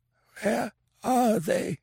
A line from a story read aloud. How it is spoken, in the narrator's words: It was a racking croak, not even remotely resembling a human voice